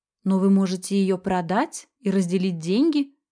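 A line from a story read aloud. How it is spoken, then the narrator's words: Plain. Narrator (Russian): сказала я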